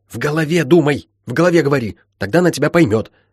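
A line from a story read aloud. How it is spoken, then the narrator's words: Blurted out quickly. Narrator (Russian): тут же быстро выпалило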